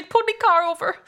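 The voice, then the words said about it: Bad put-on Swedish accent. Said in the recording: “That was the worst Swedish accent I ever done.”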